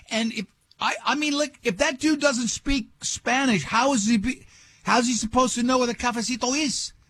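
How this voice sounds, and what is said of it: Slips into a put-on accent. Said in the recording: “I fell right into the accent.”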